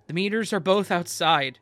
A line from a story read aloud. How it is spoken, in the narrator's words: called out, struggling to make myself sound calm